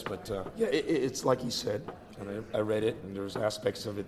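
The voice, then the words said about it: Hoarse, fading voice. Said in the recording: “I'm losing my voice,”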